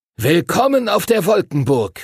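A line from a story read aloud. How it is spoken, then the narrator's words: Calling out. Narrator (German): rief Master Duncan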